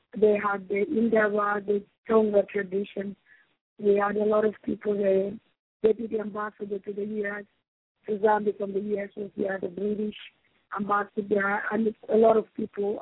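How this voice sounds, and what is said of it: Hoarse, worn-out voice. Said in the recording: “my voice is gone. I've been in meetings.”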